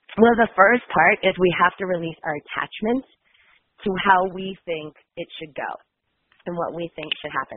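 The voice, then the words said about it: Slightly nasal, congested voice. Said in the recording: “I have like a little nasally voice because I have these kind of cold symptoms.”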